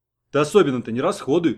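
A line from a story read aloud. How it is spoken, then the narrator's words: Sharp shout. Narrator (Russian): прикрикнул он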